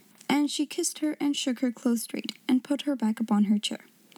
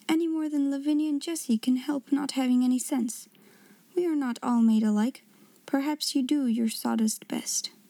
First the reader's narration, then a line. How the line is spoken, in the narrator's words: said with a resigned sigh